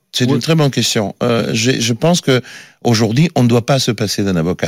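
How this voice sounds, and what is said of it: Italian accent in French. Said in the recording (French): “Je suis d'origine italienne, mais depuis 35 ans en France. Mais je garde toujours cet accent”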